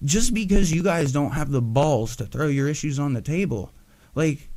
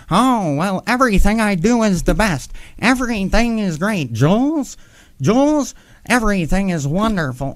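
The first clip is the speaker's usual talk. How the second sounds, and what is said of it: Imitates another person's voice. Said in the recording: “your best Mike David impression? That's what you've got?”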